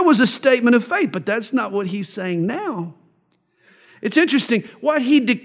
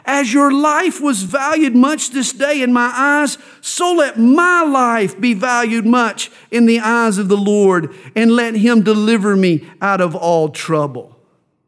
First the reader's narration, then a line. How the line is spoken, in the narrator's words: David had cried out